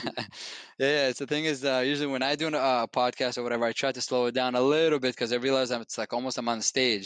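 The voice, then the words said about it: Noticeable accent, very fast speech. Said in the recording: “my accent. I apologize for that. I feel among friends, so I speak even faster.”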